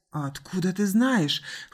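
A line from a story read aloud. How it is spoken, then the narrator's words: Hoarse, brusque question. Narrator (Russian): хрипло спросил капитан, позабыв о своей обычной вежливости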